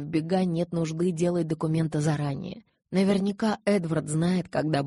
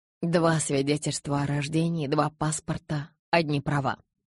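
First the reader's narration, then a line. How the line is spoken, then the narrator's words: Dejected, sinking voice. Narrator (Russian): упавшим голосом произнесла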